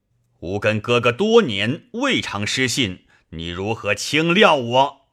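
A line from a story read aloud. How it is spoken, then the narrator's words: Angry. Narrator (Chinese): 飞怒曰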